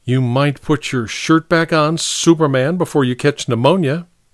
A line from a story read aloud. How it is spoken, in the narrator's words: Miss Porter said stiffly